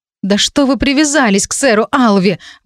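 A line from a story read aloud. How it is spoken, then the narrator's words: Exclaiming. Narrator (Russian): воскликнула я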